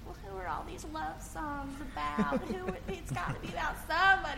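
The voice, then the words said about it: Dramatic southern mother accent. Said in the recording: “sounded very southern and dramatic ... I do a little tiny little southern mama accent”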